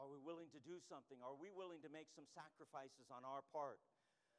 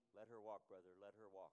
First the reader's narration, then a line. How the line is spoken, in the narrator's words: that deacon said softly